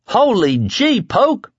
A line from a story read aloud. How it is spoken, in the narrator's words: Lloyd hollered